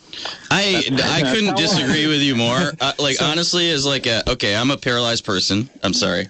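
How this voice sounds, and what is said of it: Speaking too loudly. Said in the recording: “I'm talking too loudly.”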